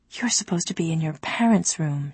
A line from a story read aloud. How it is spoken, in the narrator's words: she whispered to Dove and Sarai